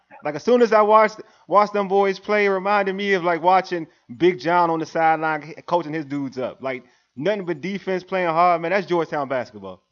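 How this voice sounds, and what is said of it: Excited, raised pitch. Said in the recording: “I'm excited. You can hear it in my voice. My tone just went up. All right? It just went up.”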